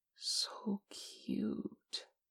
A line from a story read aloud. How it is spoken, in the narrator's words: Che breathed